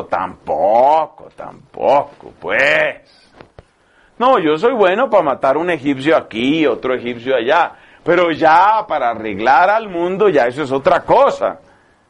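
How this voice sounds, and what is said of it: Put-on typical regional accent. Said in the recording (Spanish): “con típico acento”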